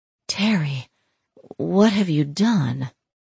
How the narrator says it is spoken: Shai breathed

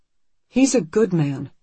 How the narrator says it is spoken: Anne says firmly

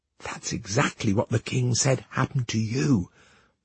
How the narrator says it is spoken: the handmaiden whispered to the princess

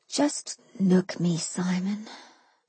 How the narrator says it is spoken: I said quietly

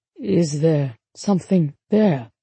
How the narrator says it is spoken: He asked weakly

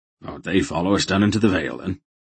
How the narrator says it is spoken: Durnik asked, looking around nervously

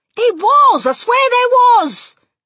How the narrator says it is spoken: the man was shouting back

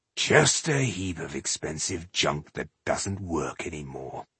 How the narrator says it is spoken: he muttered

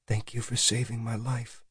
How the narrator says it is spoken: she whispered to him

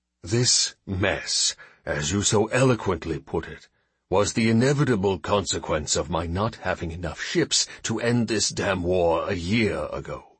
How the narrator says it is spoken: he said quietly

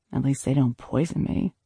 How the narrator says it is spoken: I muttered

